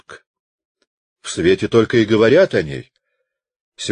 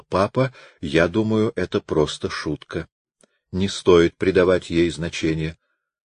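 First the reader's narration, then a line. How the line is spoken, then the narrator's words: Tender, affectionate. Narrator (Russian): она его нежно любила и потому сказала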